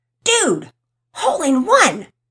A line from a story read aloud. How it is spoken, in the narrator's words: Todd yelled excitedly